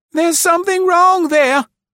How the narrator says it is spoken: she cried shrilly

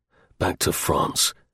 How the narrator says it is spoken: declared Martin grimly

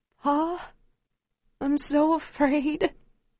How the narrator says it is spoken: cries

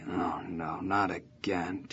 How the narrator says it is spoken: my dad would get up out of bed, and I'd hear him sigh

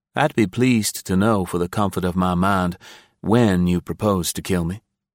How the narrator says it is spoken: said Scott, and he kept his voice even

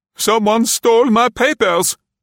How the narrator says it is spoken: the man cried

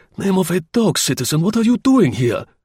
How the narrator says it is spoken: the latter swore with the pain

